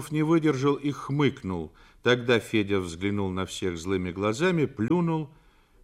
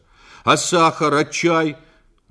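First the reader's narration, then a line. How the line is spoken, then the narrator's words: Angry objection. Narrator (Russian): возразил Федя, и его пугачевская бородка сердито дернулась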